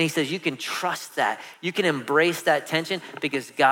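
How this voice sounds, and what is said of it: Usual voice. Nothing is said of it.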